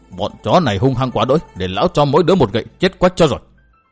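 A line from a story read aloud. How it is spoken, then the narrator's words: Old beggar's angry mutter. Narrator (Vietnamese): Lão hành khất tức mình lão lẩm bẩm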